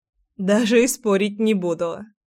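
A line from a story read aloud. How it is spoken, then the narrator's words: Chuckle. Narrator (Russian): хохотнула я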